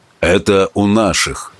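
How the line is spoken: Even voice. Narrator (Russian): ровным голосом продолжал Марко

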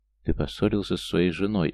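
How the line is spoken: Drunken question. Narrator (Russian): опьяненным голосом спросила она

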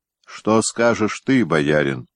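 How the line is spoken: Plain. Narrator (Russian): спросил он Телятьева

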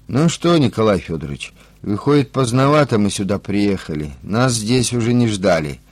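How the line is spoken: Grim joking. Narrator (Russian): мрачно пошутил старший опергруппы

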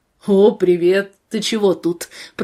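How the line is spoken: Deep bass voice. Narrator (Russian): пробасил Андрей

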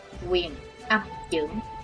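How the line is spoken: Soft murmur. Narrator (Vietnamese): Chí Tôn khẽ thầm

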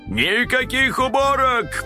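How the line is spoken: Distant shout. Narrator (Russian): прокричал он уже из гостиной

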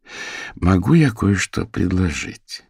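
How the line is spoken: Soft, gentle. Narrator (Russian): мягко обратилась к женщине Фиона

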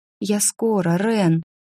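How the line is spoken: Whisper. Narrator (Russian): шепчу я

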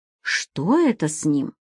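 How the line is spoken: Worried whispered question. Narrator (Russian): Шепотом поинтересовалась немка обеспокоенно

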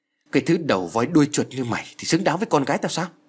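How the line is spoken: Angry. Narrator (Vietnamese): giận dữ nói

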